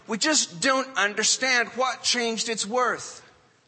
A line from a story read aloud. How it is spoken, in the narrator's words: some of them cried